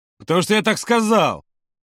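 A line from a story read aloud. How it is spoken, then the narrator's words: Barking shout. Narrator (Russian): рявкнул Женя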